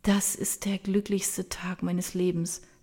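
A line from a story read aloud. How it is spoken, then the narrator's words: Soft. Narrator (German): sagt sie leise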